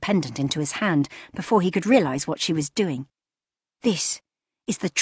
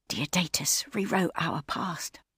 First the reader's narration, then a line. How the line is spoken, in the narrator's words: she whispered in his ear